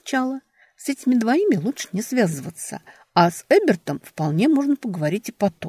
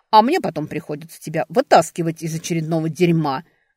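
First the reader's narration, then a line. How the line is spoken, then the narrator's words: Barking snap. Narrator (Russian): рявкнул Ральф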